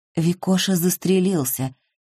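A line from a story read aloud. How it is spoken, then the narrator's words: Quiet. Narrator (Russian): тихо произнесла Ирина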